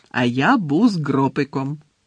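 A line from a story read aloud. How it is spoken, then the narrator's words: Joyful. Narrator (Ukrainian): радісно повідомив Гегрід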